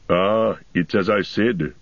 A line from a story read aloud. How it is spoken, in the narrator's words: growled Gimli